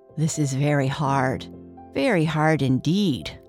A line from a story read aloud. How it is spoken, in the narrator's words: sighed the elephant